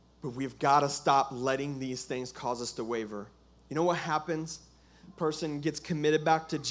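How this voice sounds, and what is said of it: Usual voice. Nothing is said of it.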